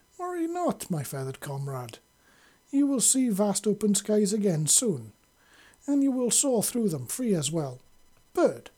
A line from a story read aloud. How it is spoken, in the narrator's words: said with a chuckle at his own slight faux pas